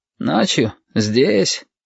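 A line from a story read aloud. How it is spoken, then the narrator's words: Sleepy surprise. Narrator (Russian): сонно удивился Шамиль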